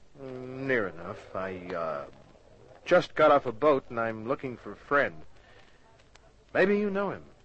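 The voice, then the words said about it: Speaks with a noticeable accent. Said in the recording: “Not with that accent.”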